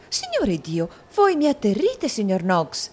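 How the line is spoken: Frightened exclamation. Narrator (Italian): esclamò la signorina Lacrivi impallidendo

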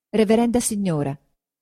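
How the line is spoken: Plain. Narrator (Italian): disse Lucia

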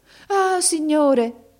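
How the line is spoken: Mother's exclamation. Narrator (Italian): esclamò la madre

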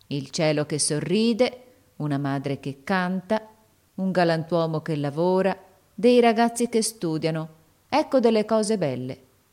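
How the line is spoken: Slow speech. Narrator (Italian): disse lentamente

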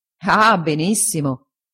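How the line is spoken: Laughing. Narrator (Italian): disse Traddles ridendo

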